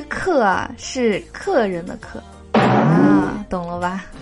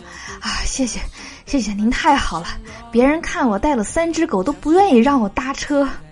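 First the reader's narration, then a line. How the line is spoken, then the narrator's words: Panting, breathless. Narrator (Chinese): 年轻人喘着粗气说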